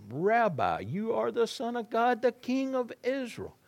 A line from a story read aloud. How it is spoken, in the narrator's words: Nathanael exclaimed